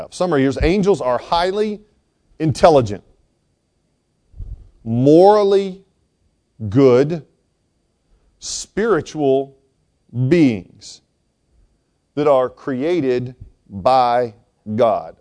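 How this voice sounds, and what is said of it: Slow, deliberate reading. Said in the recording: “I read it slowly so you catch each of the words' meaning”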